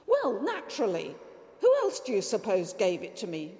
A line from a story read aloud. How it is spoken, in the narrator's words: retorted Peppone's wife indignantly